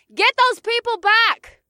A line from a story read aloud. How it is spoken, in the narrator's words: I shouted to the cops below